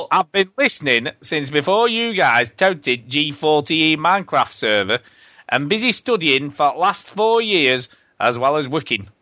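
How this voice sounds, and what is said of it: Put-on northern English accent. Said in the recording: “sounds northern when you put it in a northern accent”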